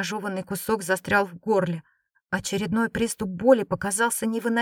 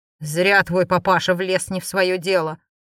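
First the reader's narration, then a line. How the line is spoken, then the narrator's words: Angry growl. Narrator (Russian): злобно прорычал Галий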